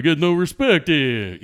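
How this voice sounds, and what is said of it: Poor Rodney Dangerfield impression. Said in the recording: “An awful Rodney.”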